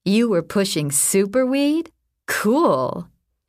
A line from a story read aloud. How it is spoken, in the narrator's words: she laughed